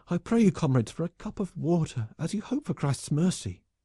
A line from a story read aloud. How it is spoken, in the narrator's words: it cried